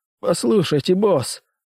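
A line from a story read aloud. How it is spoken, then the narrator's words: Man babbling timidly. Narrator (Russian): пролепетал мужчина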